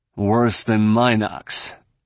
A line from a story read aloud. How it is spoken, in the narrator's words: Han grunted